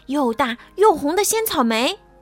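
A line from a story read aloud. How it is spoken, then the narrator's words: Shouting. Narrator (Chinese): 他们喊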